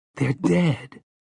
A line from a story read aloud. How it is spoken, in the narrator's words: Jake said in a thin, controlled voice